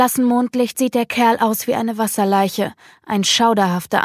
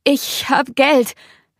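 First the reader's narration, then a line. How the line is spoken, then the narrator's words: Stammering. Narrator (German): stammelt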